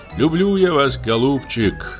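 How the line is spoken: Sighing. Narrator (Russian): вздохнул Павел Иванович

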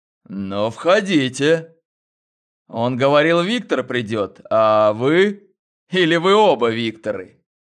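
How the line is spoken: Laughing. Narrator (Russian): рассмеялся

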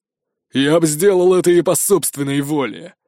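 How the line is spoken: Growl. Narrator (Russian): рыкнул Ури

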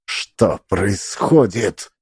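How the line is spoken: Hiss through clenched teeth. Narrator (Russian): прошипела она сквозь стиснутые зубы

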